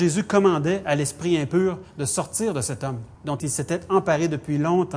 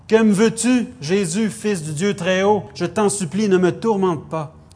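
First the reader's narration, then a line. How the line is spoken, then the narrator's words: Loud voice. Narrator (French): il dit d'une voix forte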